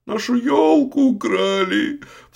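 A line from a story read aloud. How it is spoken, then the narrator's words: Youngest child sobbing. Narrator (Russian): всхлипывал самый младший, Зотик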